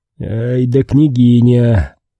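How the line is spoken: Admiring laughter. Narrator (Russian): Дмитрий смеялся восхищенно

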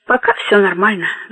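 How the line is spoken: Sighing. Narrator (Russian): вздохнула Буладзе

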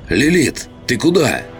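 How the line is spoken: Shouting after someone. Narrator (Russian): крикнула она в спину

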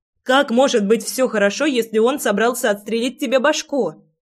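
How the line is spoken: Girl shouting. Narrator (Russian): кричала девчонка

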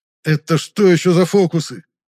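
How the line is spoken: Exclaiming. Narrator (Russian): воскликнул темноликий

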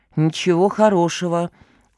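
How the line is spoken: Glum reply. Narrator (Russian): уныло откликнулся специалист

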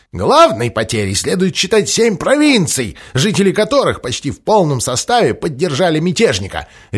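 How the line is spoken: Barked. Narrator (Russian): рявкнул Джефферсон

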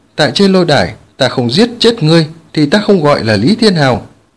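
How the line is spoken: Murderous shout. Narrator (Vietnamese): Lý Thiên Hảo sát khí hiện ra, quát

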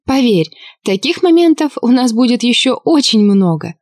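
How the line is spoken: Laughing. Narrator (Russian): рассмеялась

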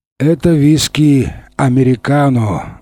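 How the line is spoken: Sigh. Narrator (Russian): вздохнул один из жандармов

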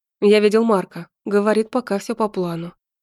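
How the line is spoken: Tired. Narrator (Russian): сказал он, устало

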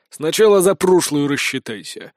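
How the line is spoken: Growled reply, burly man. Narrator (Russian): рыкнул в ответ бородатый крепыш

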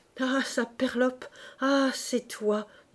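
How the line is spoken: Stammering. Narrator (French): balbutiait Quenu

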